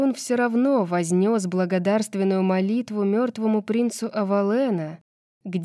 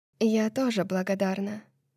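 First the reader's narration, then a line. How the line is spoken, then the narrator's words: Quiet. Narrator (Russian): тихо сказала Лидия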